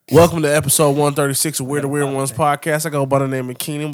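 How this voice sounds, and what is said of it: Rough, congested-sounding voice. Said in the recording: “Please excuse my voice. My allergies is kicking my ass.”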